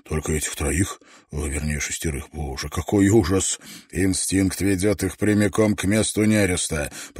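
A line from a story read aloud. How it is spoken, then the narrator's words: Muttered. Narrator (Russian): пробормотал Давенпорт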